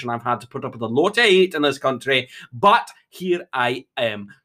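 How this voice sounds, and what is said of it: Strong Scottish accent. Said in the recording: “your voice is terrible ... your accent is so strong ... I am Scottish”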